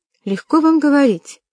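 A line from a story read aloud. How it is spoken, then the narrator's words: Indignant exclamation. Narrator (Russian): воскликнула мисс Килдер, не в силах более спокойно выслушивать нападки на своего арендатора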